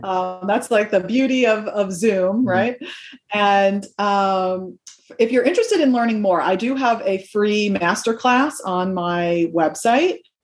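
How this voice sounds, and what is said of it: American accent. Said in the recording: “people can probably recognize from your accent that you're not based in the UK like me, you're based in the States”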